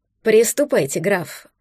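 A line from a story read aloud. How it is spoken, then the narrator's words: Quiet command. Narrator (Russian): негромко приказал он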